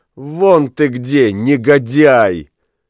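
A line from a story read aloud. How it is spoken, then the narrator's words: Laughing through tears. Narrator (Russian): смеясь сквозь слезы, сказала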